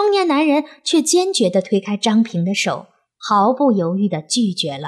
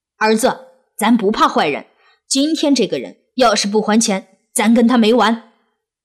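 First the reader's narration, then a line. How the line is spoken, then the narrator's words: Loud. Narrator (Chinese): 他大声对小男孩说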